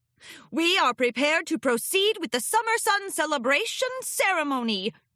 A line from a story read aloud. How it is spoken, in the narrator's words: Luna thundered